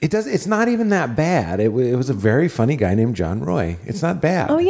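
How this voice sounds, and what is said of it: Usual voice. Nothing is said of it.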